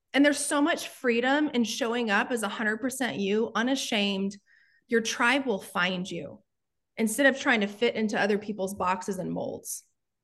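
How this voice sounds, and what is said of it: Strong Texas accent. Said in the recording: “this crazy Texas accent”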